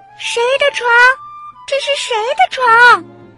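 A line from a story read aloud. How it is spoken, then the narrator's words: Repeated shouting. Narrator (Chinese): 他不停的喊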